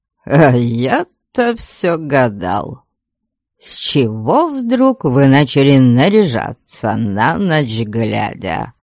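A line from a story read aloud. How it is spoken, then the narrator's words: Coarse chuckle. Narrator (Russian): Грубо хохотнул он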